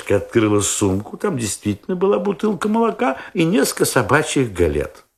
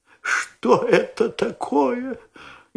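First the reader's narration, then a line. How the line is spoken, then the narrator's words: Frightened whisper. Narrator (Russian): испуганным шепотом спросила леди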